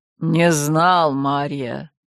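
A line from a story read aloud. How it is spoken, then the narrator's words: Low-voiced reply. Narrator (Russian): низким голосом ответил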